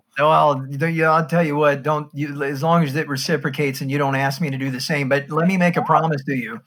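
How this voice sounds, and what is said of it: American accent, Midwestern hybrid. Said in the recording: “I can tell by your accent ... you're from the States. I can tell that much ... It's a hybrid from the middle. What they call the flyover”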